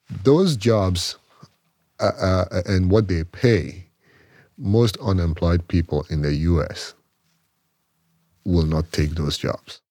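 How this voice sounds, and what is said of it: Ghanaian West African accent. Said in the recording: “has an accent. ... I am from a small country in West Africa called Ghana.”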